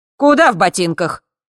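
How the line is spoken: Barking landlady. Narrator (Russian): рявкнула хозяйка

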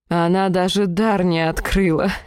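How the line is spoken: Laughing. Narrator (Russian): Страсть рассмеялась

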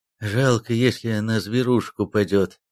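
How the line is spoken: Sighing Siberian man. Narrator (Russian): вздохнув, проговорил сибиряк по-русски

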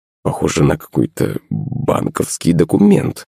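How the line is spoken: Muttered. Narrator (Russian): пробормотал Семен

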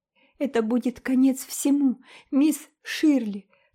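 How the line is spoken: Sobbing. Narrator (Russian): всхлипывала

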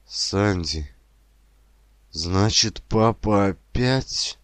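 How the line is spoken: Sudden childlike sob. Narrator (Russian): Он вдруг всхлипнул, как в детстве

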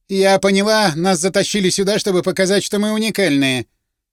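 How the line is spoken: Quarrelsome tone. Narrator (Russian): склочным тоном изрекла бизнес-леди

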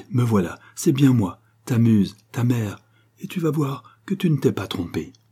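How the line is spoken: Fairy's exclamation. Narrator (French): s'écria la fée

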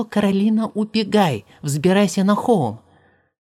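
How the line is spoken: Father's sudden shout. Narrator (Russian): Вдруг папа закричал

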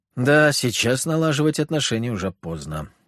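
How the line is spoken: Gloomy. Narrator (Russian): мрачно проговорил Иларион

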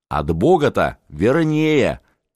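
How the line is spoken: Shouting. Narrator (Russian): Феофан кричал

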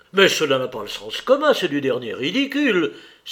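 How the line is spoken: Exclaimed. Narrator (French): s'écria Stepan Arkadievitch

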